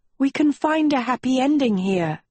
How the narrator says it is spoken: she pleaded

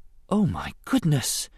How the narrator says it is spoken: she breathed softly

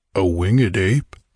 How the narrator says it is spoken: said old Niaga uneasily

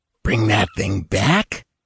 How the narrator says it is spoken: muttered the small, dark man, with a short, sardonic laugh

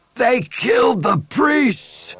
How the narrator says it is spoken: one old man shouted and began to sob

